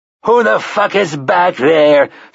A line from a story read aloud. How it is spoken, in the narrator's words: Finley roared